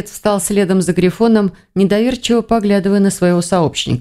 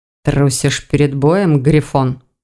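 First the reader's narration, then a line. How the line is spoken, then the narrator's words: Through gritted teeth. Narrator (Russian): сквозь зубы проговорил Тиган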